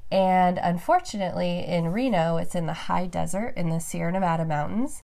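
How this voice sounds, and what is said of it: Congested, stuffed-up voice. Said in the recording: “I'm a little stuffed up. ... My voice sounds probably a little different than it normally does”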